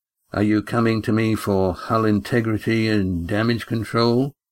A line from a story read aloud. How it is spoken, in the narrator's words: he asked in a flat, unemotional voice